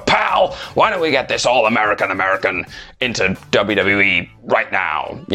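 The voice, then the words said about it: Imitates another person's voice. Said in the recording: “that's a good impression ... That's the best impression you're going to get”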